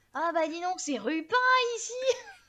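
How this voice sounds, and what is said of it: Imitation of Dame Ginette, Les Visiteurs. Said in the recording (French): “une petite imitation de Dame Ginette dans Les Visiteurs”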